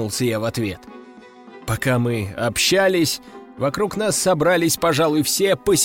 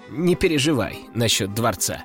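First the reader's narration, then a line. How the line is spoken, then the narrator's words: Chuckling. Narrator (Russian): хохотнул он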